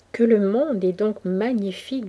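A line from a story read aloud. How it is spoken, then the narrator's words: Plain. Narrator (French): dit-elle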